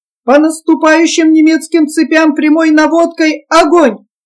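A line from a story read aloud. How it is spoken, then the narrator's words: Short sharp commanding shout. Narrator (Russian): коротко, резко, властно крикнул капитан Енакиев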